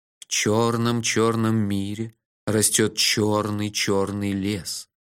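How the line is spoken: Sepulchral voice. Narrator (Russian): за могильным голосом начал я

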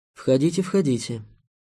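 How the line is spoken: Quiet call from another room. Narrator (Russian): негромко позвали из кабинета

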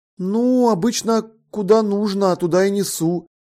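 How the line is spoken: Uncertain reply. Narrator (Russian): неуверенно ответил Джеффри

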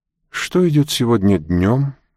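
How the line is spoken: Weary question. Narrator (Russian): утомленным голосом спросил Монтак

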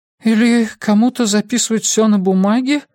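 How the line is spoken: Timid question. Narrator (Russian): робко спросила Андреа

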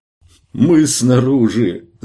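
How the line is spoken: Shout, near-sobbing with joy. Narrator (Russian): закричал он, почти всхлипывая от радости

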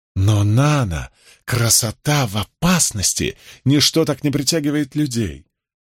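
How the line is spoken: Soft purring murmur. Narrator (Russian): Голос Люка превратился в нежное мурлыканье, словно он шептал ей на ушко нежности

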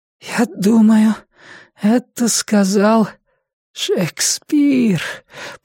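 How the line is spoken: Hoarse wheeze. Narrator (Russian): прохрипела Лиззи

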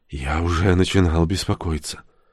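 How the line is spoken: Quiet. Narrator (Russian): Родж тихо сказал

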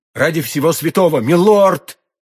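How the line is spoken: Alarmed cry. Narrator (Russian): вскрикнула госпожа Бонасье

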